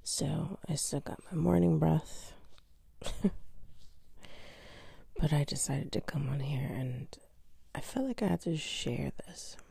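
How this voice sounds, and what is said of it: Raspy just-woke-up voice. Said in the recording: “I still might have my raspy voice because I literally just woke up ... My voice is so raspy.”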